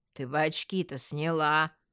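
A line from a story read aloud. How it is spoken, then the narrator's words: Scoffing guard. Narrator (Russian): хмыкнул охранник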